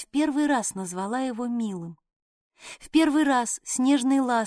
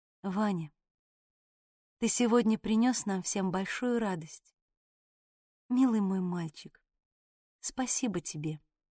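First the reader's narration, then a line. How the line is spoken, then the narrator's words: Quiet, tender. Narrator (Russian): тихо проговорила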